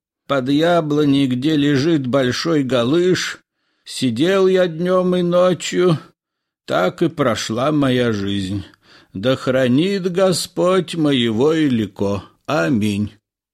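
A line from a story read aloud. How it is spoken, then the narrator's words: Hoarse wheeze. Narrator (Russian): прохрипел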